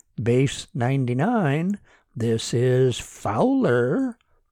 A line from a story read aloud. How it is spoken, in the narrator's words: he said slowly